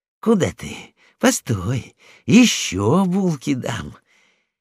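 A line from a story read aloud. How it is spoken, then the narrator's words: Muttering. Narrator (Russian): бормотал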